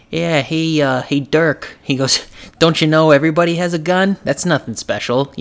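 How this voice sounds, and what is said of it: Put-on New York accent. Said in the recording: “he magically has a New York accent.”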